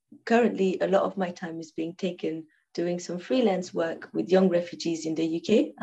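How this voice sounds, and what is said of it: Non-native English accent. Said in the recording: “as my listeners can probably hear from your accent, you might not be a native English speaker”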